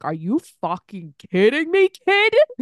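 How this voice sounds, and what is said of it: Imitates another person's voice. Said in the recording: “That was a good Ed impersonation.”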